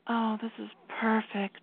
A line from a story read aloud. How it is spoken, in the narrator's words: she mumbled